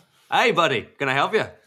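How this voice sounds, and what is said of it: Bad put-on Australian accent. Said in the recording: “best Australian accent ... That's awful. ... little in Australia Irish, from Dublin.”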